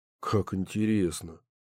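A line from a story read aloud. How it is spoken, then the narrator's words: Muttering. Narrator (Russian): пробормотал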